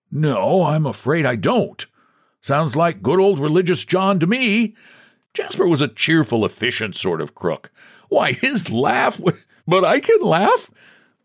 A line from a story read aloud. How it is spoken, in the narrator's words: The dreadful croak which John uttered was the cry of an evil bird of the swamps